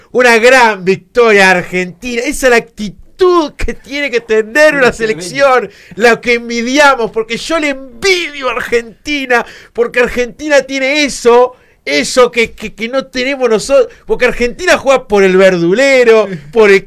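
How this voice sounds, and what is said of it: Imitates another person's voice. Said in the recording (Spanish): “imitación de Pirri de Franco Fernández”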